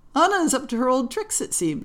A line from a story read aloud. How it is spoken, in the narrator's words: said with laughter in her eyes